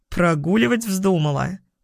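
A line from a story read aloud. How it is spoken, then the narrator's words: Chuckling. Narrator (Russian): Хохотнул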